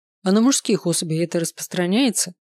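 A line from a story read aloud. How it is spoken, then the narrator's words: Wry snort. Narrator (Russian): хмыкнул Дэн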